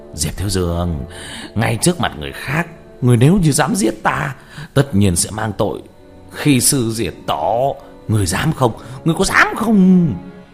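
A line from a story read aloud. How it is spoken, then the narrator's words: Loud laughing. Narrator (Vietnamese): Ngọc Kỳ Tử cười lớn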